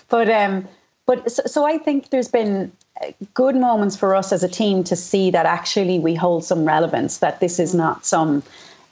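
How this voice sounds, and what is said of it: Hoarse, fading voice. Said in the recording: “I'm losing my voice because I'm talking so much over Zoom these days.”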